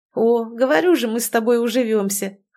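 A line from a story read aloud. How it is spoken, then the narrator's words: Laughing. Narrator (Russian): хохотнула Тоня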